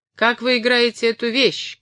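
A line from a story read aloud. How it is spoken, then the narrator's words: Turner shouting. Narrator (Russian): кричал токарь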